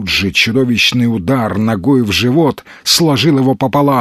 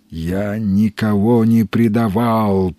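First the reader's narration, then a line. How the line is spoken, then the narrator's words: Moaning. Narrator (Russian): простонал Ганс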